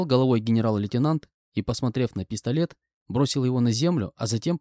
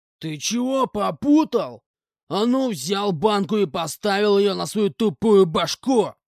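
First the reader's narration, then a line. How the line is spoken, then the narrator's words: Man shouting. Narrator (Russian): прокричал мужик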